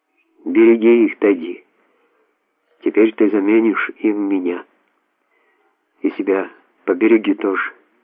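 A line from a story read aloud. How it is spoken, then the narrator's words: Calm. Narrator (Russian): уже спокойно сказал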